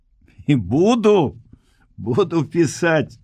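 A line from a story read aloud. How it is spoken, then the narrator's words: Smiling. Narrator (Belarusian): зноў усміхнуўся Алесь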